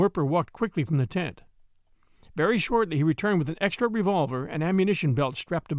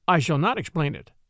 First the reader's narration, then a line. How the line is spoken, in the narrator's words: replied Werper